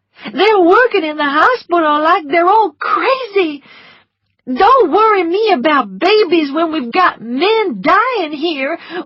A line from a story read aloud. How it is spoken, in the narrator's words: one of them shouted at me